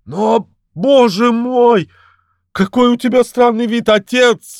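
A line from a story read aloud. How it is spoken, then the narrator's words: Sudden exclamation. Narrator (Russian): воскликнула вдруг принцесса Амарца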